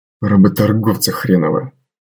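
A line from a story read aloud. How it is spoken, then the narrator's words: Grumbled under breath. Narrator (Russian): буркнул наемник себе под нос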